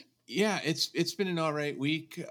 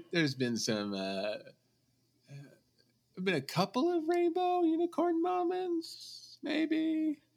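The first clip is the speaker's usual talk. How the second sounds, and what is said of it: High falsetto voice. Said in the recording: “When you go up an octave, that's how you know. ... I'm going way up here ... goes falsetto”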